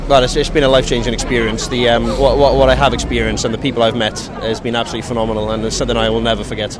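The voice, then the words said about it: Welsh accent. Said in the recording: “I'm detecting from your accent you're from Wales.”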